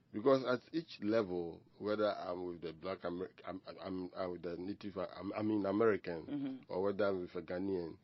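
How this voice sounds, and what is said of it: Ghanaian accent. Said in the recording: “they don't let you forget that you are Ghanaian because of your accent”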